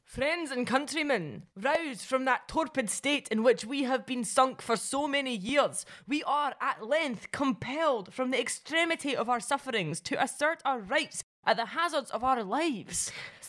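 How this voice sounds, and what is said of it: Put-on Central Belt Scottish accent. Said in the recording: “can you do the accent of a Central Belt artisan weaver?”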